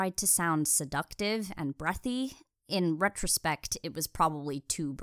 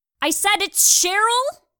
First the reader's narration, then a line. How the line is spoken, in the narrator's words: yelled way too loudly and slightly maniacally